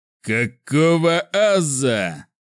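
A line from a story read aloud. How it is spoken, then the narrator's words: Immediate shout. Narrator (Russian): тут же закричал Борок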